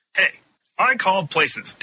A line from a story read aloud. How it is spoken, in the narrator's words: Dan shouted more loudly